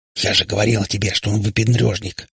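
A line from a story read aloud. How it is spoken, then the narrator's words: Whispered. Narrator (Russian): зашептала Катя сестренка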